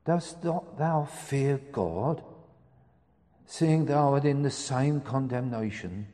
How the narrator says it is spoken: He pleaded with the man

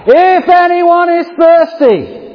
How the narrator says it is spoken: cried out

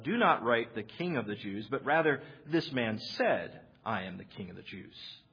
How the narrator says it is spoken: Pilate answered

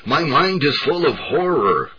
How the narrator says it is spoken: cried the dying man

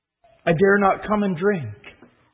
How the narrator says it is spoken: said Jill

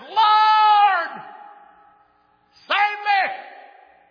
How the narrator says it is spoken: cried out and said

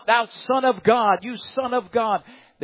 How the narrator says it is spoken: they cried out

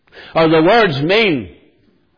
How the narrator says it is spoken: they cried out louder

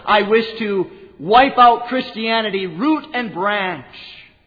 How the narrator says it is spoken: said to them

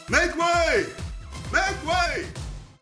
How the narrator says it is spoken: men ran before him shouting

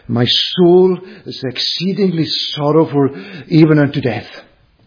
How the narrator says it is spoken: exclaiming on the way to the cross

